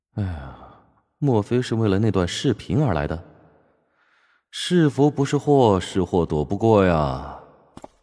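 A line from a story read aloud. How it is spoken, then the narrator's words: Inward sigh. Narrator (Chinese): 乔治暗叹了口气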